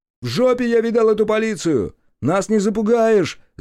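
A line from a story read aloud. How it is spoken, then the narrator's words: Shouted. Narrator (Russian): закричал он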